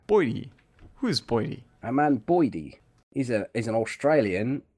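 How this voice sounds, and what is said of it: Put-on Australian accent. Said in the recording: “that was my accent that was my aussie accent”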